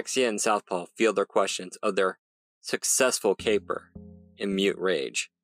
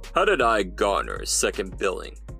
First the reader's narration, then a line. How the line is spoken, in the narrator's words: Weatherman grumbled